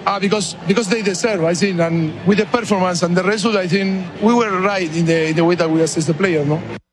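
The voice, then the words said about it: Fast speech, heavy foreign accent. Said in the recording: “It wasn't his best English ... He talks fast with the accent. It is a little rough.”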